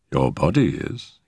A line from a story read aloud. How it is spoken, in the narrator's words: he said dryly